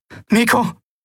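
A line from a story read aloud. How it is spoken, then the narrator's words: Called out. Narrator (German): rief Endriel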